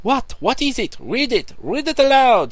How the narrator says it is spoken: cried the others

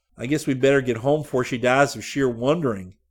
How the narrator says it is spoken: Scotty said

